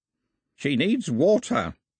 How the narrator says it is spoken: croaked the old man

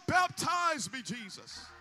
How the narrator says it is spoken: shout

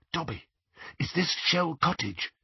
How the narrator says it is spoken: he whispered

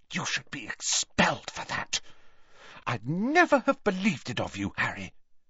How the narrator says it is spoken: so that only Harry could hear her, she hissed

